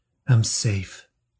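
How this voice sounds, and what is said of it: Whispered line. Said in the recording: “I said to myself in a whisper”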